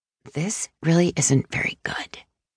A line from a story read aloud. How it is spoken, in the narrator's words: one of the two youngest apprentices whispered